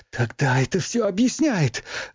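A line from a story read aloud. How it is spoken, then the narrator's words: Excited exclamation. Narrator (Russian): воскликнула Юлия взволнованно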